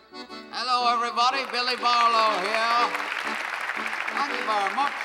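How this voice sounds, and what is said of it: Broad Australian accent character voice. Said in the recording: “such a two-bob Australian accent like me”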